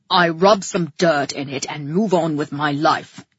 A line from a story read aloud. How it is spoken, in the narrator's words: grunted